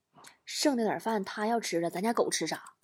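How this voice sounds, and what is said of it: Whispered quoted line. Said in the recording (Chinese): “小声”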